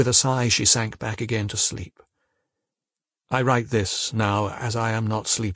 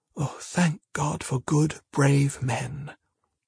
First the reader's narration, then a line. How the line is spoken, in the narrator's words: She sighed, said softly